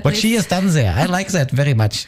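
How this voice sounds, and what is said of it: Put-on German accent. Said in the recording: “It's a good German accent.”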